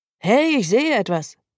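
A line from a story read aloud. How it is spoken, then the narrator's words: Calling out. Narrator (German): ruft der Fahrer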